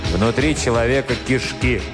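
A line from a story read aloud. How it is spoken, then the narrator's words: Gloomy reply. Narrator (Russian): мрачно ответил Жихарь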